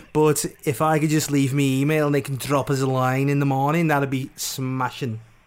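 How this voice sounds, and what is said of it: Slurred, drunken-sounding speech. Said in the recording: “I've had a couple of shandies, I'm sure you can tell, because I'm slurring me words.”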